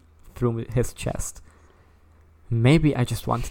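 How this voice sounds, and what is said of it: Usual voice. Nothing is said of it.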